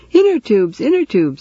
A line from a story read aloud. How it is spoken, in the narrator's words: screaming